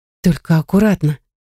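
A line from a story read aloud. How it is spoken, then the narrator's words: Hesitant request. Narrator (Russian): неуверенно попросила я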